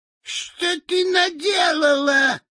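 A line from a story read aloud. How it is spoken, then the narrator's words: Shrieking. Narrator (Russian): завизжала волшебница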